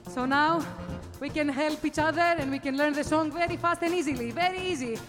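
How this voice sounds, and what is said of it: Greek accent in English. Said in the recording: “I use my Greek accent”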